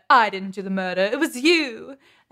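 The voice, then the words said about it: Weird put-on accent. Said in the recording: “a really good, weird middle accent”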